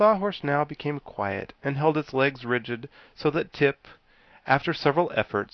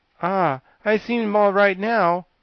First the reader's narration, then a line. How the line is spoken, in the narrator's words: said the queer, calm animal with a sigh